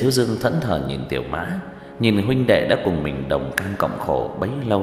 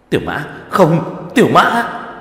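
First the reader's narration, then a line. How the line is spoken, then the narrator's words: Loud shout. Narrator (Vietnamese): Tứ Bảo hét lớn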